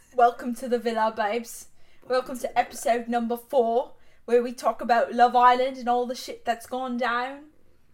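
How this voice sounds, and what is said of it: Put-on British accent, fairly decent. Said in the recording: “We do the whole thing in a British accent. ... I think my accent's actually pretty decent. ... Yours is way better than mine”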